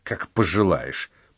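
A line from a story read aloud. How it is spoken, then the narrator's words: Grumble. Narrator (Russian): проворчала она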